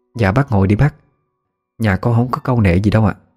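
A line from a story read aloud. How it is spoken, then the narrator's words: Woman speaking, smiling. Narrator (Vietnamese): chị mỉm cười nói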